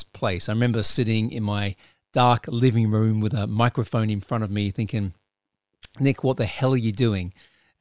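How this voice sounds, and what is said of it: Australian accent. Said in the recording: “this bloody Australian accent”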